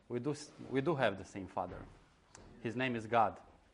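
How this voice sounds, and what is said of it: Balkan accent. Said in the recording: “my Balkanic accent is maybe hard to follow or it's strange”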